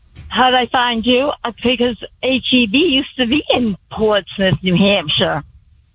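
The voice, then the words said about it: Strong regional accent. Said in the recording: “What an accent. I love it.”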